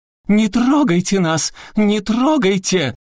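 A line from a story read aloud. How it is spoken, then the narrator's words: Shrill effeminate shout. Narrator (Russian): он закричал своим пронзительным женственным голосом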